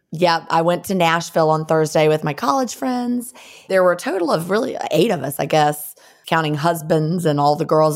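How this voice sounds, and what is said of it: Scratchy, sleepy voice. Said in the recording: “I'm so sleepy, and my voice is scratchy.”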